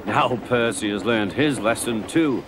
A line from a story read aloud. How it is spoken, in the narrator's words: he chuckled to himself